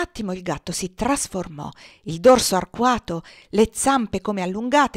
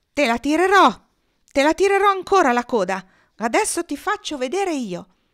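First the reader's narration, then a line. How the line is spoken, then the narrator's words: Small furious shouting. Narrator (Italian): Nils andò su tutte le furie e, dimenticando di essere piccolo e inerme, gridò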